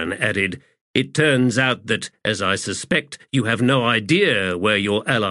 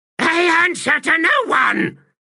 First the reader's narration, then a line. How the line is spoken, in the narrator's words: Another shriek, the echoes racing